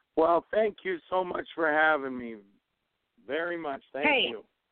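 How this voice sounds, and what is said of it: Strained, nearly lost voice. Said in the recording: “my voice is almost gone because we're doing Howl Scream also”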